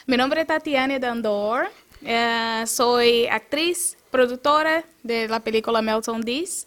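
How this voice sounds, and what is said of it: Brazilian accent speaking Spanish. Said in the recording (Spanish): “ese acento, tú eres de dónde? ... Yo soy brasileña.”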